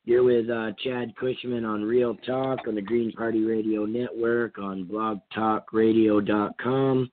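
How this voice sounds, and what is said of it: Hoarse voice from a cold. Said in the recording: “I still got a little bit of a cold. I'm a little bit hoarse. ... So my voice is a little bit worse than it was even last week. ... I hope I don't lose my voice”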